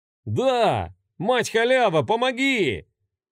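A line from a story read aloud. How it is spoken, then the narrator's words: Tipsy young men shouting together. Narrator (Russian): Хором выкрикнули двое других, уже прилично навеселе парней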